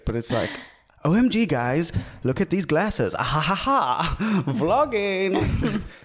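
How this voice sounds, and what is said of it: Imitates another person's voice. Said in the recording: “my best impersonation of David Dobrik”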